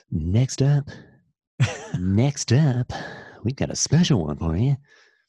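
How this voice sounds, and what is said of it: 1980s radio announcer voice. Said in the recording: “1980s radio voice ... this is what you talk like on the radio”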